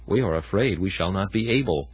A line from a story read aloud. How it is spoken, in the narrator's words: But they whispered among themselves and said